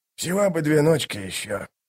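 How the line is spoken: Mumbled. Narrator (Russian): пробормотал он

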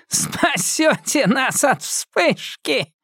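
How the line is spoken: Sinister laugh like dry cough. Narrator (Russian): Она засмеялась, но ее зловещий смех больше напоминал приступ сухого кашля

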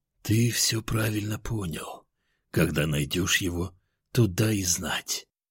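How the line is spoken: Calm. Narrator (Russian): спокойным голосом ответил он

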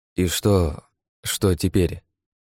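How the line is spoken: Strained, forced out. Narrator (Russian): кое-как выдавил

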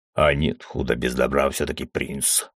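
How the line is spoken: Wry snort. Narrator (Russian): хмыкнул

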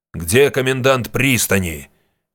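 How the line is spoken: Thundering command, warrior. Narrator (Russian): нетерпящим возражения голосом прогремел воин

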